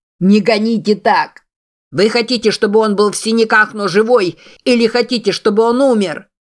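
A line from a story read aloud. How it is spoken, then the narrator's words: Shouting back. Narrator (Russian): закричал в ответ санитар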